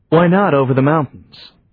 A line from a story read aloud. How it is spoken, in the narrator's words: asked Johnny